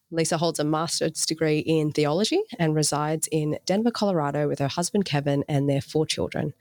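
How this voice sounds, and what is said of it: Distinct accent. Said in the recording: “in your accent, it makes me sound even cooler”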